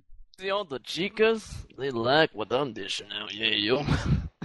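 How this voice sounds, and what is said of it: Failed Cuban accent, sounds Russian. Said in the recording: “He's Cuban. ... Now he's changed to Russian. ... I can't do the Cuban accent.”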